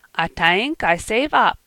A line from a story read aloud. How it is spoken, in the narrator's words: said with a giggle